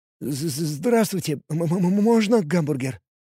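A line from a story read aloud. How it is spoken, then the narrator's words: Timid nerd babbling. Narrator (Russian): пролепетал ботаник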